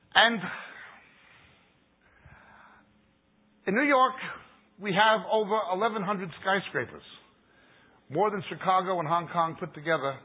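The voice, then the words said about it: New York accent. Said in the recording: “As you can tell by my Bugs Bunny, Barbra Streisand, Robert De Niro accent, I'm from New York.”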